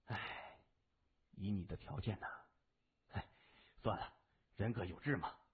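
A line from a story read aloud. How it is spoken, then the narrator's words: Sighing, deeply regretful. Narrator (Chinese): 那个人叹口气，无限惋惜地说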